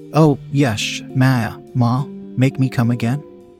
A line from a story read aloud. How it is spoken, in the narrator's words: She stuttered out